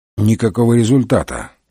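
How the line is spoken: Grumbled. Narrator (Russian): пробурчал Мегре

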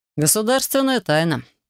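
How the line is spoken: Snorting. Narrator (Russian): хмыкнул Хантер

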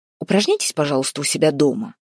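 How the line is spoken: Stern. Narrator (Russian): строго сказал Максим Владимирович

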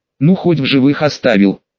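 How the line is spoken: Sighing. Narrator (Russian): вздохнула Луиза

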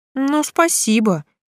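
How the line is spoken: Relieved snort. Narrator (Russian): фыркнула я, чувствуя облегчение

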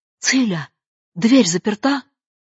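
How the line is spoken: Startled half-asleep cry. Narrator (Russian): Катя опять роняла голову и уплывала в тоскливые парные туманы, чтобы часа через три на рассвете опять всплыть и вскрикнуть

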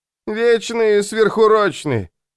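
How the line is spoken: Drunken mumbling. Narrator (Russian): пьяным голосом забубнил брат

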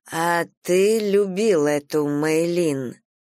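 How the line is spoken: Ominous drawl. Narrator (Russian): протянула я и сама удивилась тому, как зловеще прозвучал мой голос

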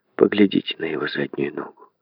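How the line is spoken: Woman's whisper after pause. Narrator (Russian): После короткой паузы женщина прошептала

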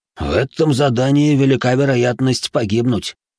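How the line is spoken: Snorting. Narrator (Russian): хмыкнул второй черный

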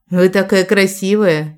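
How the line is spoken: Even sadder sigh. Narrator (Russian): еще грустнее вздохнула я

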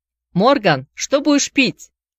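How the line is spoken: Shouting after someone. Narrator (Russian): крикнул ему вдогонку Мэйджи

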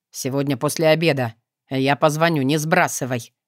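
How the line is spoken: Curt clipped remark. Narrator (Russian): обронил отрывисто

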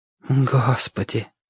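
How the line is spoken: Breathless exhale. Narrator (Russian): выдохнула

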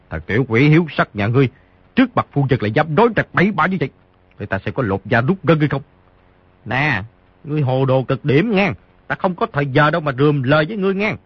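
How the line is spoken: Exasperated shout. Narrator (Vietnamese): Xấu Đầu Đà không chịu nổi, quát

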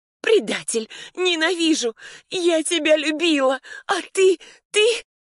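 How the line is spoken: Choking on tearless sobs. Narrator (Russian): Я захлебывалась воздухом и пустыми рыданиями без слез

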